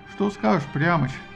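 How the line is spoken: Plain. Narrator (Russian): спросил Аякс

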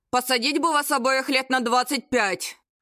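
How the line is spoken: Displeased grumble. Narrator (Russian): Пробурчал Наполеонов, обнаружив к своему полному недовольствию

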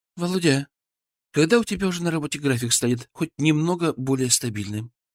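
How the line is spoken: Sad question. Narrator (Russian): грустно спросила Света

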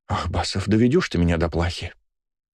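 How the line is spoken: Nurse sighing. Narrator (Russian): Вздохнула медсестра

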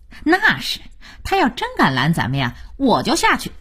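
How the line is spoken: Beaming smile. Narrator (Chinese): 二美满脸堆笑

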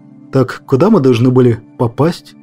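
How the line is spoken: Plain. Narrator (Russian): спросил Петров

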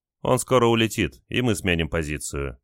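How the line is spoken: Calm reply, radio operator. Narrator (Russian): спокойно ответил радист

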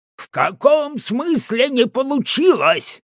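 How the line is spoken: Yelling at full volume. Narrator (Russian): орал во все горло

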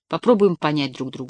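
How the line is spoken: Soft. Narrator (Russian): сказал мягко

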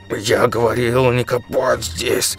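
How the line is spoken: Angry hiss. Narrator (Russian): шипел он злобно

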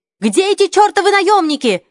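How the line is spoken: Shouting woman. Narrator (Russian): закричала Перес

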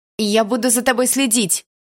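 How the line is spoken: Shouted after someone. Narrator (Russian): выкрикнула я ему в спину

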